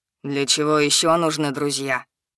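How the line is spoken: Mocking question. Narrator (Russian): насмешливо спросил Лиса

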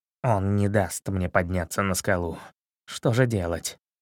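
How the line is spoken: Quiet. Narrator (Russian): Чернохвост тихо сказал

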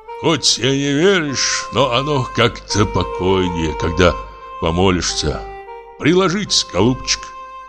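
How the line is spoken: Deep sigh after weeping. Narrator (Russian): Он глубоко вздохнул и сказал

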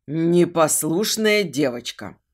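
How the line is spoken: Growling bass. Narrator (Russian): послышался рычащий бас Дэна

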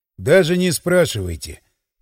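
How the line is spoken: Sighing. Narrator (Russian): вздохнул я

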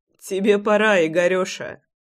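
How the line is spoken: Short laugh. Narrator (Russian): хохотнул я

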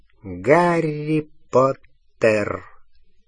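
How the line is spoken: Soft voice. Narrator (Russian): сказал он мягко, его голос сливался с шипением огня

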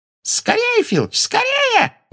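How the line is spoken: Shrieked. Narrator (Russian): взвизгнула Амбридж

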